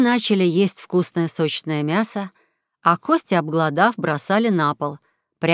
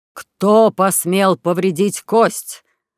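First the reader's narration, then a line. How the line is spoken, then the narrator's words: Booming thunderous voice. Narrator (Russian): Загремел Тор громовым голосом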